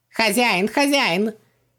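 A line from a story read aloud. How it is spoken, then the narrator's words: Happy squeak. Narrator (Russian): счастливо запищал Хубаксис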